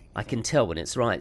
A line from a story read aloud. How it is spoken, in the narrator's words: says Bjorn